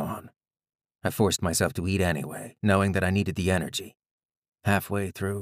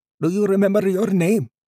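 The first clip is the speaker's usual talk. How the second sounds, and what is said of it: Thick Indian accent. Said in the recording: “he said in a thick Indian accent”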